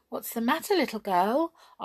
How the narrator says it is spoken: asked Hop in his kindest voice

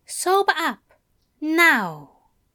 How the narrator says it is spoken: he said quietly

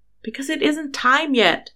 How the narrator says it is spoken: Harry exclaimed

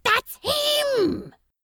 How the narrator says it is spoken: Crowley hissed

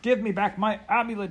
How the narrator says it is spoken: he cried

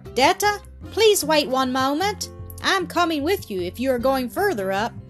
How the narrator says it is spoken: a voice called out to her through an open door

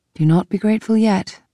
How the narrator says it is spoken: I said

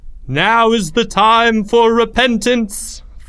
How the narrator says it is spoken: thundered the high priest

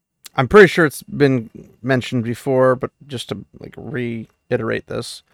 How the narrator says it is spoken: her speech was slurred

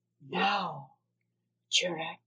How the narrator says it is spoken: she whispered

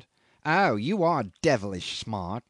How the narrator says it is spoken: he sneered

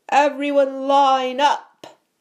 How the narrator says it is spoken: Malfoy roared to the crowd

